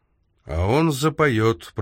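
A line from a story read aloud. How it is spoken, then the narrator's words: Grumbling. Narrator (Russian): пробурчал Томас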